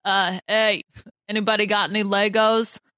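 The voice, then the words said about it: Terrible Boston Rob impression. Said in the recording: “my terrible Boston Rob impression”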